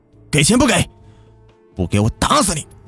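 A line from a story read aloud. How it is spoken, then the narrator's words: Furious, through gritted teeth. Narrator (Chinese): 刘勇咬牙切齿地对母亲嚷道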